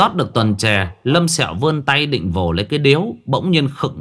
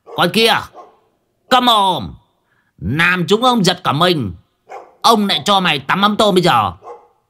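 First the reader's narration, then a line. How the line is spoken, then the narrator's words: Harsh bark. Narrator (Vietnamese): Đồng giả quát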